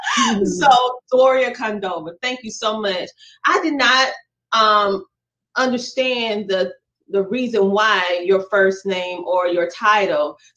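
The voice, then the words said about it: Southern American twang. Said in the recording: “my southern twang”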